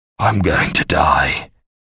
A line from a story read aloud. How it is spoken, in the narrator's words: he told her weakly